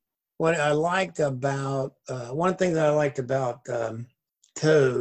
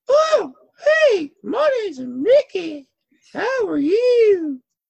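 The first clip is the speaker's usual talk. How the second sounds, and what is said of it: Mickey Mouse voice, turning Southern. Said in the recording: “your best Mickey impression ... Kind of changed in that last sentence ... Southern at the end.”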